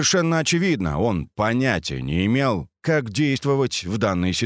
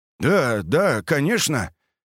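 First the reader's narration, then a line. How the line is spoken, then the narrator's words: Confused mutter. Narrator (Russian): растерянно пробормотал тот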